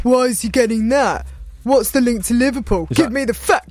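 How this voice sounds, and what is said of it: Imitates another person's voice. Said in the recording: “Is that an impression of me?”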